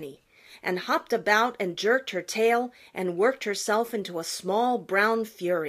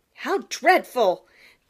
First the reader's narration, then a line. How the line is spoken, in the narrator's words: cried Peter